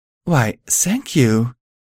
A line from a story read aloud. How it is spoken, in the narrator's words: she breathed